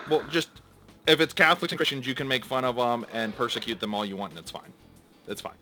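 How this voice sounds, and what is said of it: Sarcastic delivery. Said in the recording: “That was sarcasm that I was using. ... again, sarcasm, folks.”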